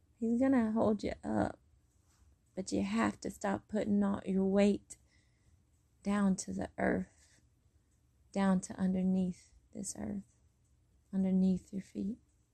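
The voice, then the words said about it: Strained, fading voice. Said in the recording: “my voice is definitely going”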